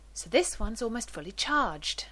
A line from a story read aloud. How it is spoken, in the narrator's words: Rodney says cheerfully